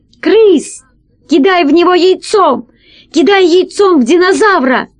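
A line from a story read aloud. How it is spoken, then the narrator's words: Shouting out of pity. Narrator (Russian): Алиса, которой стало жалко, что весельчак погибнет такой неприятной смертью, закричала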